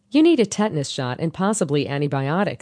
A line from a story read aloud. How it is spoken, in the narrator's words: said the nurse